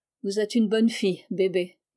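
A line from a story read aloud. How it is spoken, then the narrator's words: Stranger, more serious tone. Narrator (French): dit l'étranger, d'un ton plus sérieux qu'auparavant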